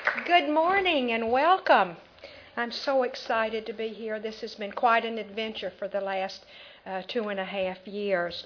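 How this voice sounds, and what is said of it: Southern American accent. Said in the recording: “She has a wonderful Southern accent”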